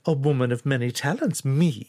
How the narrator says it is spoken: laughed

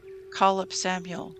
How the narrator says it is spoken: Saul replied

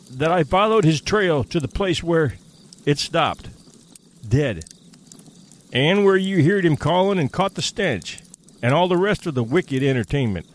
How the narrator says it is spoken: cried Hank, with a volubility that betrayed his keen distress

